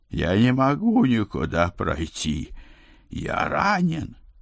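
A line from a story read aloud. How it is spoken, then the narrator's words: Groaning. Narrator (Russian): Моро со своих стульев простонал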